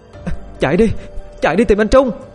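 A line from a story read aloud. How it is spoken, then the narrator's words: Desperate shout. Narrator (Vietnamese): Không còn cách nào khác, Thư hét lên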